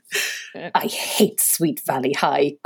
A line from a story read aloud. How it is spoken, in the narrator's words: Courtney muttered under her breath